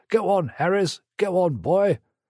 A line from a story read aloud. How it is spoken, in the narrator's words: they gasped begrudgingly